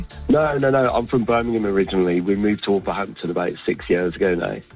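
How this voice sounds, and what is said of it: Voice sounds rough and worn. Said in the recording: “my voice sounds as bad as it does, because I was at the Villa game at the weekend”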